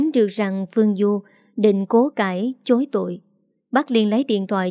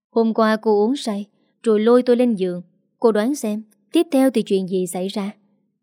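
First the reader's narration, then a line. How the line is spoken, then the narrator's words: Sighing explanation. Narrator (Vietnamese): Bác thở dài giải đáp thắc mắc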